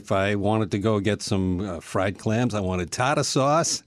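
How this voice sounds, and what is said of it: New England regional accent. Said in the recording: “New England ... the regional accent”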